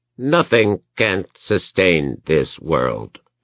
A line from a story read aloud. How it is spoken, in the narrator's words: it intoned weakly